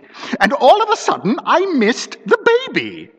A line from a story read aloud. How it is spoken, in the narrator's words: continued Miss Mombi in a shriller tone